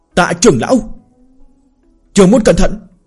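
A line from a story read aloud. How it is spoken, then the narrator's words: Anguished scream. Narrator (Vietnamese): Tào Ngọc Nhi thét lên thê lương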